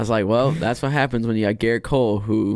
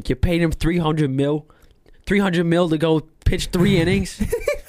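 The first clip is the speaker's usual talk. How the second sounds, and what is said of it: Put-on New York accent. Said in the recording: “I'm gonna try to do my best New New York accent.”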